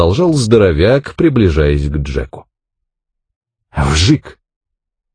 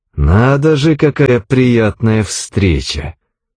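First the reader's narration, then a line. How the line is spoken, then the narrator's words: Through gritted teeth. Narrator (Russian): Сквозь зубы процедил Джек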